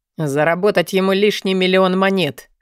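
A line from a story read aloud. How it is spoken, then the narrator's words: Snort. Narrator (Russian): хмыкнул Алви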